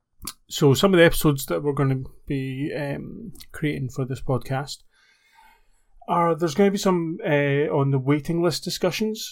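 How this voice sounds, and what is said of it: Scottish accent. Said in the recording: “I'm based in the UK, you can probably tell my accent, Scotland”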